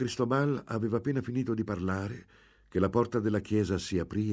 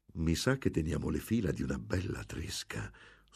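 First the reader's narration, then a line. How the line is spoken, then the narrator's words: Whispered. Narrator (Italian): sussurrò Don Cristobal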